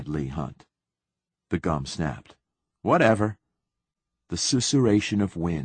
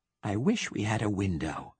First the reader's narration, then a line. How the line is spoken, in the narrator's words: whispered Leigh Hunt